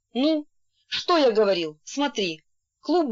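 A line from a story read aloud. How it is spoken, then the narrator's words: Exclamation. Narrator (Russian): Касьян воскликнул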